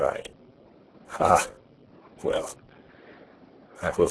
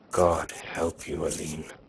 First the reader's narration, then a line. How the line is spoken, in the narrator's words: he groaned